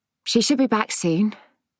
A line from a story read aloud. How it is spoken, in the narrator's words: said, trying to keep my voice light, when really I felt heavy with dread